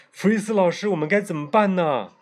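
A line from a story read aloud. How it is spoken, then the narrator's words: Crying out. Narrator (Chinese): 凯莎哭喊道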